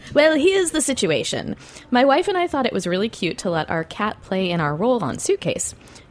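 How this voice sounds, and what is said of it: Male voice, put-on British accent. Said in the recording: “going to do a male voice for me this time? ... should I do an accent? ... Does he seem British? ... It's like going to be Mrs. Doubtfire.”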